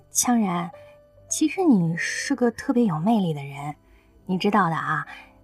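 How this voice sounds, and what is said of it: Soft quiet voice. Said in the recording (Chinese): “小声说了一句”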